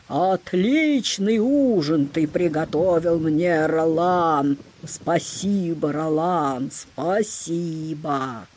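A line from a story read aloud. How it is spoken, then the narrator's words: Evil sorcerer's booming shout. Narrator (Russian): злой колдун Чур, сидит верхом на птице и кричит зычным голосом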